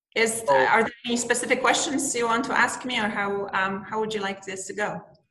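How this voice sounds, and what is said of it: Polish accent. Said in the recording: “I'm actually originally Polish. So that's okay. Where the accent's from.”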